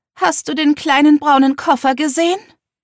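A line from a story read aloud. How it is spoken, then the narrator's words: Mother calling from another room. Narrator (German): rief Mom aus ihrem Schlafzimmer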